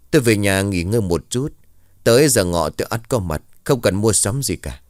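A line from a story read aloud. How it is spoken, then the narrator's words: Cold. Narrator (Vietnamese): Vẫn là cái giọng đầy lạnh lùng của ông thầy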